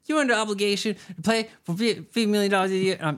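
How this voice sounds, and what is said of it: Poor impression of Chuck. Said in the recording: “That's not a good Chuck impression.”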